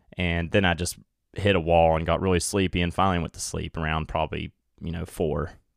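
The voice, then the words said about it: Worn-out, tired voice. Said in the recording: “sorry about my voice is a little worn out. I can hear it right now”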